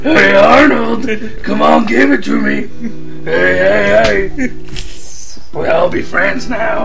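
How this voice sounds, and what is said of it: Imitates Fat Albert cartoon voice. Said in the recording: “That almost sounded like Fat Albert. ... I can do Fat Albert.”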